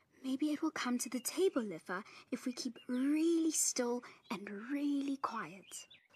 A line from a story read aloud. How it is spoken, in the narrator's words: Tumelo whispered